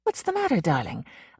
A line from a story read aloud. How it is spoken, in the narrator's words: Lisa asked him uneasily